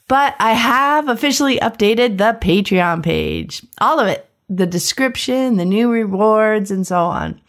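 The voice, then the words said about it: Sick-sounding voice. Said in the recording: “well, I'm sick. You can probably hear that in my voice.”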